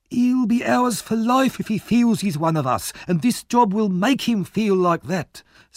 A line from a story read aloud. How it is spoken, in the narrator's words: said Fagin eagerly